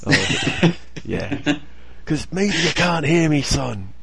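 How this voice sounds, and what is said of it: Loud yelling Irish dad voice. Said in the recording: “dad voice... That kind of yelling to make sure I'm heard... yelling Irish voice... drunken Irish man”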